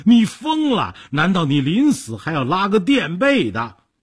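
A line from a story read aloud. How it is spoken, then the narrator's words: Trembling, frightened. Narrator (Chinese): 说着抱头伏案，抖成一团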